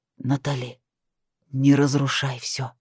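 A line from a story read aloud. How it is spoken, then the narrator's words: Pleading, demanding whisper. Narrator (Russian): зашептал он в мои губы, моля и одновременно требуя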